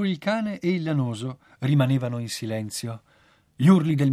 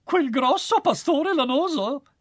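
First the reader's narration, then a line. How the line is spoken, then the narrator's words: Rag exclaiming. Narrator (Italian): esclamò il cencio fiorito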